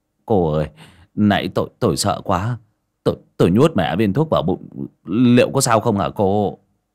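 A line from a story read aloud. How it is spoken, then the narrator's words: Stammering. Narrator (Vietnamese): ấp úng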